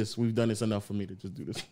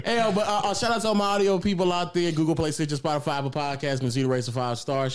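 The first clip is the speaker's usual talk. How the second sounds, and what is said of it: Fast radio-style voice. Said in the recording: “you got a radio voice, bro. Like, you talk hella fast”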